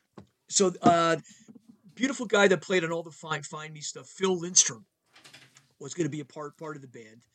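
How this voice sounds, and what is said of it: Voice affected by a cold. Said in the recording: “I have a little cold here still”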